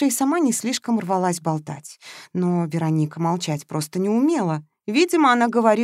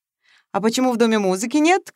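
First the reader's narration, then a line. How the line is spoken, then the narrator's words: Shouting. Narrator (Russian): кричал Матвеев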